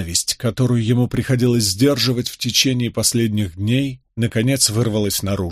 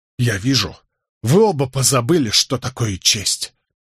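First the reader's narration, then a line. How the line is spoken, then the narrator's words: Voice trembling with rage. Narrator (Russian): дрожащим от ярости голосом процедил Николас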